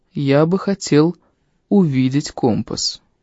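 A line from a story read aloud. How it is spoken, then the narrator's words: Soft, bearded man. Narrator (Russian): мягко сказал бородач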